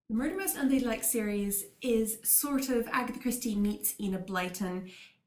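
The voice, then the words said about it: Californian American accent. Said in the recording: “I was born in California, hence the accent”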